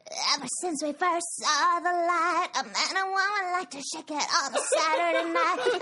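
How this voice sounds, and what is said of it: Sings imitating another person's voice. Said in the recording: “your Britney Spears impression”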